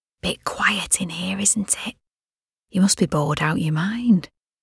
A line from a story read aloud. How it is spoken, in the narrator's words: she whispered